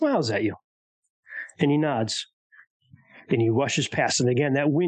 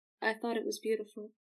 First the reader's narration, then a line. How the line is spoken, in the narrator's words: just very quietly says